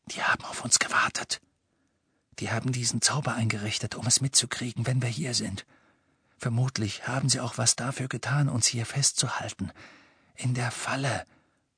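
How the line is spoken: Whispered. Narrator (German): flüsterte Harry

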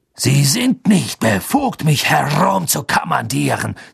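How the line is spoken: Irritated hiss. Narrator (German): zischte Snape, als würde er sich über sich selbst ärgern

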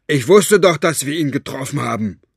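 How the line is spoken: Called out to him. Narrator (German): rief Cockerell ihm zu

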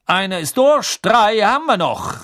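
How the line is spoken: Called out. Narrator (German): rief Bergman

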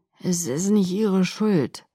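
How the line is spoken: Slurring from exhaustion. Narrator (German): lallte vor Erschöpfung

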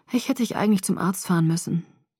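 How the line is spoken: Sigh. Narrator (German): seufzte

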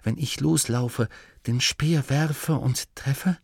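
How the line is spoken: Hunter whispering again. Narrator (German): wisperte erneut die Stimme des Jägers

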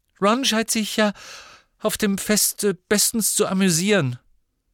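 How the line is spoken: Unnaturally high voice. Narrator (German): sagte sie mit unnatürlich hoher Stimme

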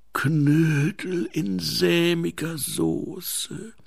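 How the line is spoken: Groan. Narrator (German): stöhnte er

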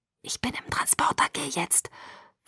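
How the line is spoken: Whisper. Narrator (German): flüsterte er

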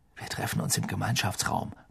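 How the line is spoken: Murmured. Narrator (German): murmelte Harry

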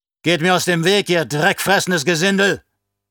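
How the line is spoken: Man roaring. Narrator (German): brüllte der Mann

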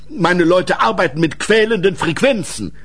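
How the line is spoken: Called out. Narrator (German): rief Boris

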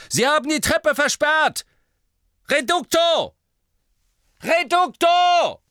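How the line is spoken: Calling out. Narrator (German): eine Stimme rief

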